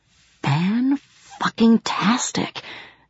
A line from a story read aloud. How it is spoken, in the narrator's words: whispered Bibi